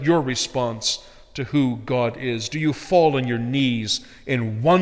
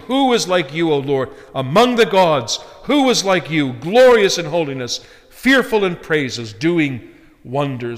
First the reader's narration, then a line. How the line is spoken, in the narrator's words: the children of Israel, after witnessing God's almighty power in destroying the Egyptians in the Red Sea, exclaim